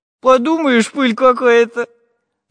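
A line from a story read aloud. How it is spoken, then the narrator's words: Laughing. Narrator (Russian): засмеялся Прутик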